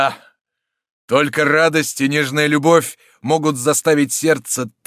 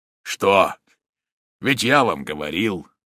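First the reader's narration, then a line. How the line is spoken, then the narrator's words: Hoarse, tearful voice. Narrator (Russian): Справившись с своим волнением, хриплым от слез голосом сказал маршалу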